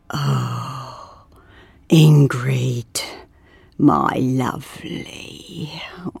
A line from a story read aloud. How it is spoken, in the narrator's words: muttered